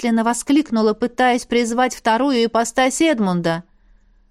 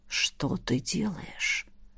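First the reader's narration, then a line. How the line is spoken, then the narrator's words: Hoarse whisper. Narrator (Russian): Хриплый шепот императора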